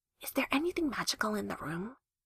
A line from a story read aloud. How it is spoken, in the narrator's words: she whispered